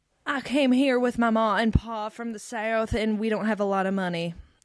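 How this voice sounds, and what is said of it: Exaggerated theatrical Southern accent. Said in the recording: “Like someone told her to have a Southern accent, and that's what you would do in musical theater ... I feel like a real Southern accent is a little toned down and less theatrical than that.”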